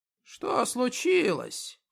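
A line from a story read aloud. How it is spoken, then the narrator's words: Hoarse question. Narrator (Russian): спросил он сиплым голосом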